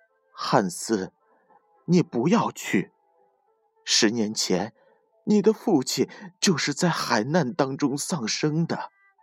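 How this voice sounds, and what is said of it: Trembling voice. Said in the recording (Chinese): “用颤抖的声音说”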